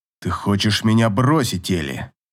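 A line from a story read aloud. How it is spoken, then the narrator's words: Displeased grumble. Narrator (Russian): недовольно проворчал король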